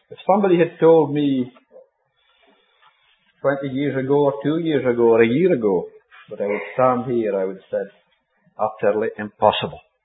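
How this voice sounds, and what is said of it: Scottish accent. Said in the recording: “I have never, ever heard a good Scottish accent. ... So I've come to fill a gap”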